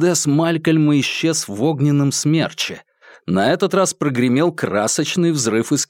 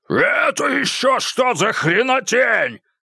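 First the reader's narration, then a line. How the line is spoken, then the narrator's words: Yelling. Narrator (Russian): заорал Малькольм Кибунд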